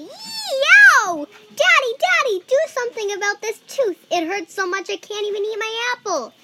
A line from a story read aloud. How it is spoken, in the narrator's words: Andrew yelled